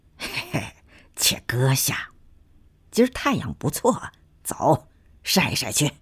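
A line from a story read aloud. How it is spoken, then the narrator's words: Laughing. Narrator (Chinese): 孟胡子笑着说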